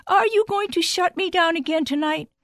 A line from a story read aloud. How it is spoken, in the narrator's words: Hestia cried out much too loudly